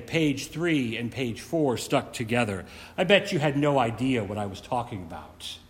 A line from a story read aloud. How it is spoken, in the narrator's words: In a resigned voice, they say